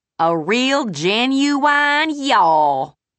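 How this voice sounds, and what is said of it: Put-on hillbilly accent. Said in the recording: “In a hillbilly accent”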